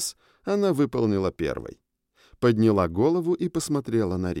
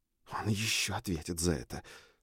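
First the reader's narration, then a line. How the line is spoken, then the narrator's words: Whispered. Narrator (Russian): шепнула Фроя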